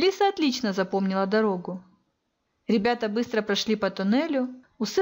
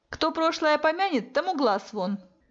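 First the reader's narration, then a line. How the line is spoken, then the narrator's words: Joking snap. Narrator (Russian): шутливо огрызнулся друг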